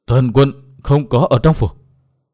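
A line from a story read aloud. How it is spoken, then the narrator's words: Trembling old man's voice. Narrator (Vietnamese): lão đáp qua giọng run run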